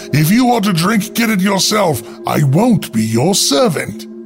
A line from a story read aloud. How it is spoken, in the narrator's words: the chambermaid said still more haughtily